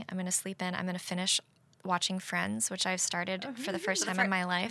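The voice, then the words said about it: Hoarse, strained voice. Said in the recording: “my voice is so shredded right now. I'm taking steroids currently to, like, get through these last 2 days.”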